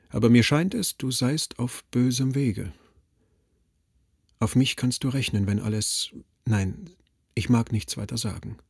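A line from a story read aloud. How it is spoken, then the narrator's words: Very gentle, wistful. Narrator (German): sagte Siegmund sehr sanft, beinahe wehmütig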